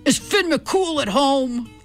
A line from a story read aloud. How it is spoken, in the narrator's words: boomed